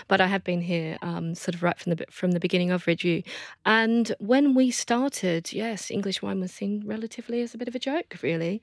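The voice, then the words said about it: Slight Australian accent. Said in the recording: “the little Australian accent”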